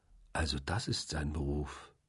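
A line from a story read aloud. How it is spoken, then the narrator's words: Soft. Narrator (German): sagte ich leise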